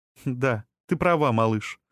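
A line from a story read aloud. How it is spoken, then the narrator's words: Soft, smiling. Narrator (Russian): сказала Сирена и мягко улыбнулась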